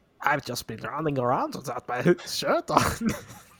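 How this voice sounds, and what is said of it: Russian-sounding accent, a little German. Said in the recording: “the craziest thing about you, to me, is that accent ... what part of Russia are you from? Is it like north? Far north? ... It's a little polar bear. It's also, I think, a little German.”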